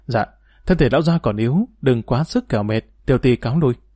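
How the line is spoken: Gentle reply. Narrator (Vietnamese): Cả Văn Tâm dịu dàng đáp

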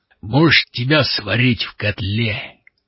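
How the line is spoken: Booming drone. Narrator (Russian): прогудел он

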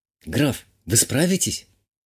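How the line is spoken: Barely audible question. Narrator (Russian): чуть слышно задала вопрос баронесса

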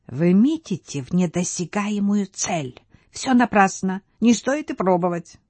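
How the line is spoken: Gloating whisper. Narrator (Russian): Трестка злорадно шепнул

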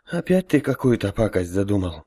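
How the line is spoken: Resigned sigh. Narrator (Russian): обреченно вздохнул Гоша

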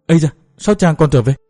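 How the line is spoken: Startled exclamation. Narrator (Vietnamese): Hoàng thị kinh hoàng thất thanh định kêu lên, bèn nói

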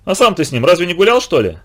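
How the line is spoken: Sharp question. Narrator (Russian): резко спросил Коробов

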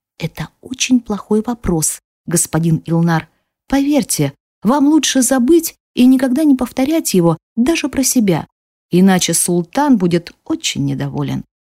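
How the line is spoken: Whispered. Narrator (Russian): прошептала

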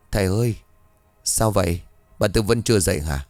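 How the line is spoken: Dejected voice. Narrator (Vietnamese): Khang nói với giọng ủ rũ

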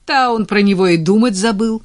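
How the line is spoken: Loud laughter. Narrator (Russian): расхохоталась Надя

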